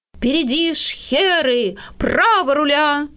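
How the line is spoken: Shouting. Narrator (Russian): кричал

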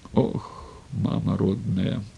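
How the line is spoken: Breathless gasp. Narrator (Russian): выдохнула она

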